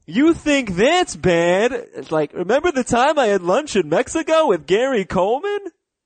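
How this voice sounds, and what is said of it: Terrible South Park character impression. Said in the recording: “It's a terrible impression... South Park impersonating, or Family Guy impersonating South Park”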